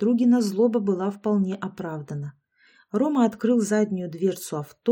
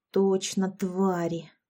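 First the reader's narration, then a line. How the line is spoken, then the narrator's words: Drawn-out, angry. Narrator (Russian): протянула Яшка, злобно таращась на аллею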